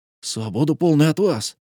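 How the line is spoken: Exclaimed. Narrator (Russian): воскликнул

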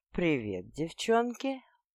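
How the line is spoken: Womanizer's purr. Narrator (Russian): мурлыкнул главный академический бабник

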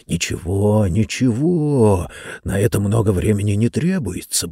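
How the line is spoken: Muttering. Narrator (Russian): бормотал он

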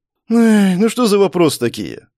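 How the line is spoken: Sighing. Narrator (Russian): Вздохнул Морецкий

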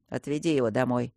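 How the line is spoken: Quiet. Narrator (Russian): сказал тихо

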